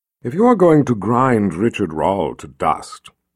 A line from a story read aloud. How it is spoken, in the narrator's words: she said in her most condescending tone